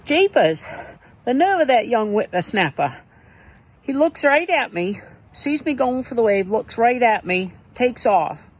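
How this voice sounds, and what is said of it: Put-on old-timer character accent. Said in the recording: “What's that accent?”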